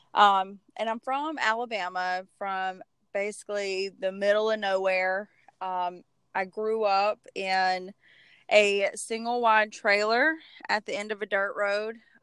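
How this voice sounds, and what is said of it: Strong Southern American accent. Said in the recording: “My Southern accent is pretty strong”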